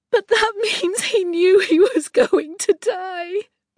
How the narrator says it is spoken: Star, the youngest, had sobbed over the phone

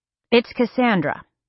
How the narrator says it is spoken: told, his voice flat

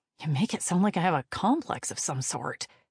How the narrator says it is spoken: Kate muttered

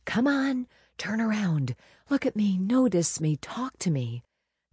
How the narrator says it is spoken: Inwardly, I whispered

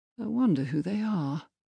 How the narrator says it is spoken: Montague mused softly

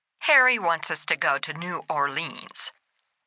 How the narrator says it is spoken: Alex grumbled

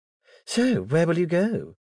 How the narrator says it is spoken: her sister asked, her voice betraying relief the offer of shelter had been declined

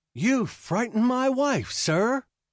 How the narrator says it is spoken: Jitter called out

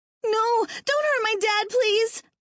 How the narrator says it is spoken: Terry cried

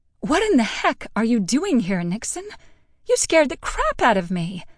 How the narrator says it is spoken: I gasped

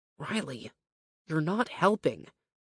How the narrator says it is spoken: Cruz muttered beneath his breath

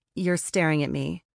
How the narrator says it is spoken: Amber said, her tone flat, but with a smile creeping over her face

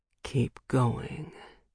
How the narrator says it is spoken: he growls, just loud enough for me to make out the words

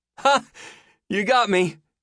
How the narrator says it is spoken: he laughed

